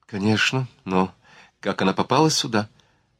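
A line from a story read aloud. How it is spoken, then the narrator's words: Timid. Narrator (Russian): Грак робко осмелился подать голос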